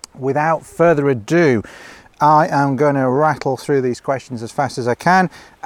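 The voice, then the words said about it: Slightly hoarse, throaty voice. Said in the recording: “I've got a frog in my throat”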